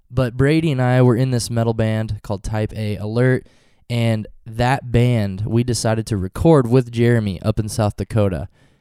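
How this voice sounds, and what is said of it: Stuffy, congested voice. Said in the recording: “I have a cold. I've been sick for the last week ... sorry if I sound a little stuffy.”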